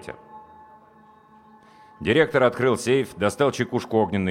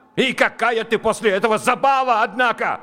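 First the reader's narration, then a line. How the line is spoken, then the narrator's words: Yell. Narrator (Russian): заорал он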